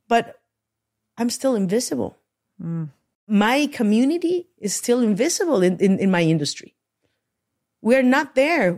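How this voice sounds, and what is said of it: Latina accent in English. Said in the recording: “they listen to my accent. They understand it. They open their ears literally to listen to different accents”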